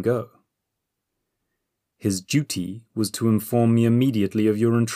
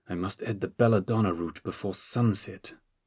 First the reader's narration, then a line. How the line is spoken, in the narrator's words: he muttered